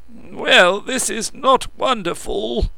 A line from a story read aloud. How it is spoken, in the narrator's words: choked Barrowbridge